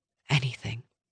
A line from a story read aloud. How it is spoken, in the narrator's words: she whispered